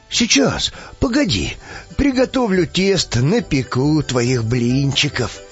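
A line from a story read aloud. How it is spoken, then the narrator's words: Tender old man. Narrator (Russian): ответил ласково дед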